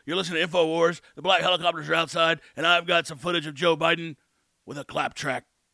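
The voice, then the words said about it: Alex Jones impression. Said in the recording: “Not too bad, huh? That was my first Alex Jones impression”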